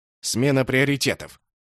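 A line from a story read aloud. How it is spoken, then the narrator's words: Angry reply. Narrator (Russian): зло ответил человек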